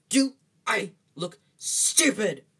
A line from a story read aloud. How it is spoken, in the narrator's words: snarled Uncle Vernon